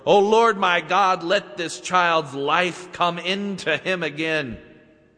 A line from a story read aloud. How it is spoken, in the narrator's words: cried out to the Lord